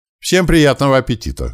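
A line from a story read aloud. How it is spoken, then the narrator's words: Loud. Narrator (Russian): громко пожелал я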